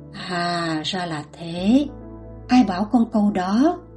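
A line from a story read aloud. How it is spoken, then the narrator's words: Lowered voice. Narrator (Vietnamese): Cha hạ giọng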